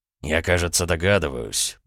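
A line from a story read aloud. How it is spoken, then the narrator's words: Barely audible mutter. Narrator (Russian): пробормотал Дерешев, но так тихо, что Аполлонов не сумел его расслышать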